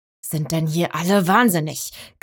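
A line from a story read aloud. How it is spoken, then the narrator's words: Rider growling. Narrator (German): knurrte der Reiter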